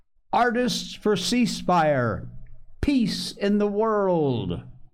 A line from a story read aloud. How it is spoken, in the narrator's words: Lennox shouted